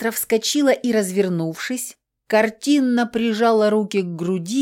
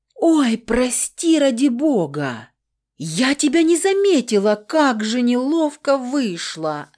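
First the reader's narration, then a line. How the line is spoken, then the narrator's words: Loud wailing yell. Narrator (Russian): На всю душевую завопила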